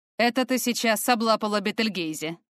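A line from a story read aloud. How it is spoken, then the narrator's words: Wry snort. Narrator (Russian): хмыкнул Фортем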